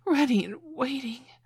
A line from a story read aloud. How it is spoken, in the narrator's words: I gasped